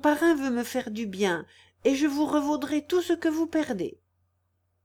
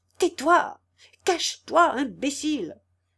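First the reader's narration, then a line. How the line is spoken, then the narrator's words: Exasperated shrew exclaiming. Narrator (French): s'écria la mégère exaspérée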